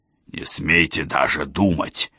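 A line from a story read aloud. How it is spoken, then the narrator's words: Hoarse wheeze. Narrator (Russian): прохрипел он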